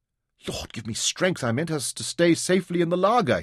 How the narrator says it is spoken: he muttered

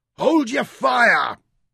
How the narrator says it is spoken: roared at him

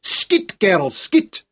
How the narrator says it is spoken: his voice carried to the English behind the trenches

